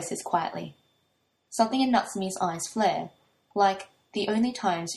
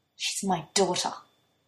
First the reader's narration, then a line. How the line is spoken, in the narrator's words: Natsumi hisses